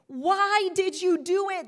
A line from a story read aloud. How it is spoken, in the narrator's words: they groaned